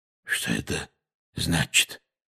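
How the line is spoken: Hoarse question. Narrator (Russian): хрипло спросил дядя Вернон

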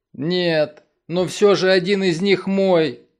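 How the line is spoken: Whimpering. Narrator (Russian): захныкал

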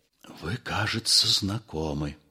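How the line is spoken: Whispered. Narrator (Russian): сказал Остап шепотом

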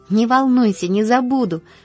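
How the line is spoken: Happy, confident promise. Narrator (Russian): пообещала Полианна радостно, уверенная на этот раз, что выиграла дело

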